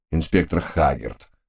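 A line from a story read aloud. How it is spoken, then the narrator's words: Somewhat glum. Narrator (Russian): несколько уныло начал представитель Скотланд-Ярда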